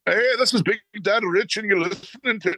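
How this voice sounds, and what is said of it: Bad put-on Irish accent. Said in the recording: “Worst Irish accent ever”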